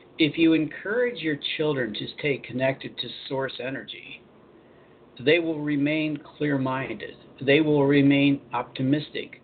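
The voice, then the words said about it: Slower, deeper, articulated radio voice. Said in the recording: “I got to slow down a little bit. I have to get into my radio voice, right? Slow down a little bit. Articulate a little better, the deeper voice”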